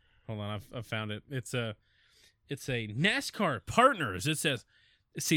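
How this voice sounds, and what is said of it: Usual voice. Nothing is said of it.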